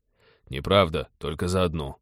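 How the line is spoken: Grumbling. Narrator (Russian): проворчал Тед

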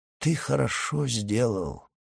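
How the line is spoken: Old man's hollow voice. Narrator (Russian): сказал старик глухим голосом

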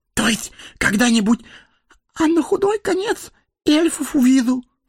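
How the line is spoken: Frightened whisper. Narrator (Russian): Он испуганно добавил шепотом

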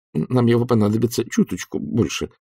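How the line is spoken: Mumbling. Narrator (Russian): промямлил Сидни

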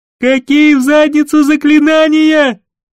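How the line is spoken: Furious roar. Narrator (Russian): взревел Гейшери

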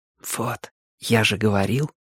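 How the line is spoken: Whisper. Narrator (Russian): шепнул мне Май

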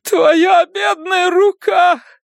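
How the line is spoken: Loud sobbing. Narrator (Russian): Она разразилась громогласными рыданиями

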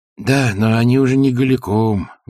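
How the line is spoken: Sigh. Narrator (Russian): вздохнул кровельщик

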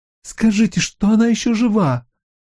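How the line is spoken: Pleading. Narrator (Russian): взмолилась она

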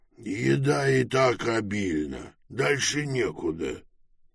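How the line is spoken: Groaned. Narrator (Russian): простонал Пилород

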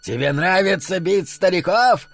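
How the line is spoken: Yelling. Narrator (Russian): завопил Ирвин Голдман

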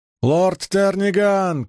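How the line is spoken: Shouted. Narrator (Russian): крикнул Гедер

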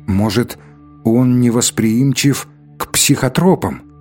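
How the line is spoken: Plain. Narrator (Russian): спросил второй

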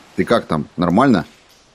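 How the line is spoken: Sharp, almost irritated. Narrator (Russian): Слова прозвучали резко, едва ли не раздраженно

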